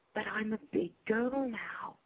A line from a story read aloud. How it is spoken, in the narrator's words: I whispered back